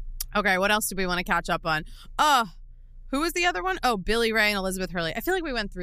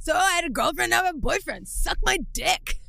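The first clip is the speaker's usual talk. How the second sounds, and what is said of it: Raspy imitation of another person's voice. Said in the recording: “that was my Andy Cohen... I got a little raspy in there... That's my impression of the year”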